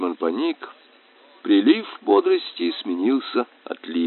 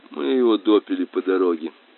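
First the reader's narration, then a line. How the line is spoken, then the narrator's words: Gloomy speech. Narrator (Russian): мрачно сказал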